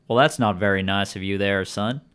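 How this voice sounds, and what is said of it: Put-on Southern accent. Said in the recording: “the taller man with the southern accent”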